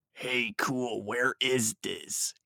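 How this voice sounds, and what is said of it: Emo-style character voice. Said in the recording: “He asked in an emo voice.”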